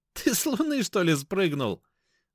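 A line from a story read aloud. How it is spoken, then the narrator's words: Laughing. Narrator (Russian): рассмеялся Эдик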